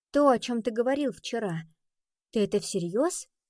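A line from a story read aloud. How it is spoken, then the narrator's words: Plain. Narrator (Russian): спросила она его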